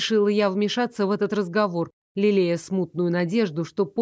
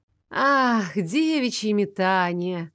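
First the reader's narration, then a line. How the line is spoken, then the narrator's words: Dreamy drawl. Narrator (Russian): мечтательно протянул Брон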